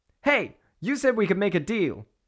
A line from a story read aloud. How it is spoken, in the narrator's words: shouted Bellona